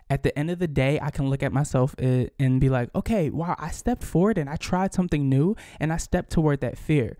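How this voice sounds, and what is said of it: Nervous, trembling voice. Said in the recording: “hear the tremble in my voice, ... I'm a little nervous”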